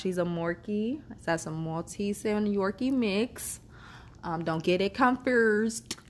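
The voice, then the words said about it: Southern US accent. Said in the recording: “I'm a Southern gal. I know y'all done heard this little accent of mine. I'm very Southern... Southern ain't the word... You can't say oil, foil, you know, all those words that people from Louisiana and New Orleans regions can't pronounce properly”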